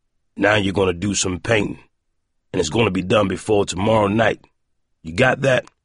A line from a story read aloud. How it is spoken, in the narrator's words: Tuttle growled, making sure Roiland would hear him